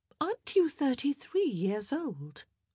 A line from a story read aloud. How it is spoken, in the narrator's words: Eloise inquired sweetly